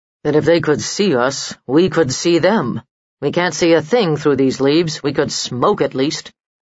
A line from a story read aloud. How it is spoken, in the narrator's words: muttered the heavy-set bowman